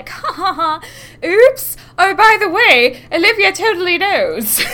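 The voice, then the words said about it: Imitates a character's accent. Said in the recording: “a very good imitation of her terrible accent ... It's not a very good accent whatsoever”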